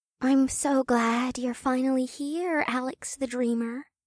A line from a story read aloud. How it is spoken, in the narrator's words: Una said in a soft voice